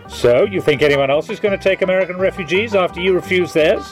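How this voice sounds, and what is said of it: Snooty British accent. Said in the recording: “I maintain this accent ... Your snooty little British twang”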